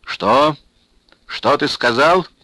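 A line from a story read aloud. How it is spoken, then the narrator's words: Menacing question. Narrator (Russian): грозно переспросил лейтенант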